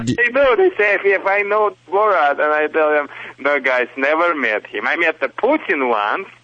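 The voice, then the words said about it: Russian-accented English. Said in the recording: “my so-called Russian accent. It's not a Russian accent, you know. It's a Michigan accent ... originally from Soviet Union”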